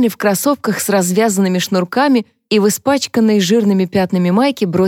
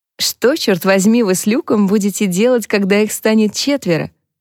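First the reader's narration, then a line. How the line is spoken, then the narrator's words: Laughing. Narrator (Russian): засмеялась Клэр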